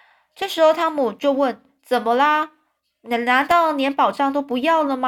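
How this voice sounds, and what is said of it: Usual voice. Nothing is said of it.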